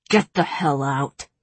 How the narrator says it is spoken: growled Tamlin

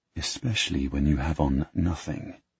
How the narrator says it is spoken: Then I whisper in her ear

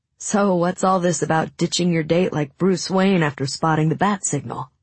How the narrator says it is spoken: Ben laughed

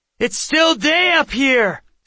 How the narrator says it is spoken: Seth yelled

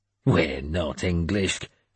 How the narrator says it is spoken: I growled

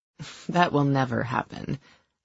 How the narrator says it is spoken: I said dryly

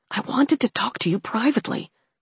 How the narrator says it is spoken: Alex whispered, trying to keep his voice as soft as possible

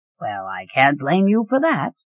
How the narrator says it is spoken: Quentin chuckled

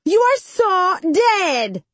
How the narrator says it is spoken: Bonita shrieks

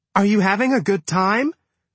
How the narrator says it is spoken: Jenny shouted

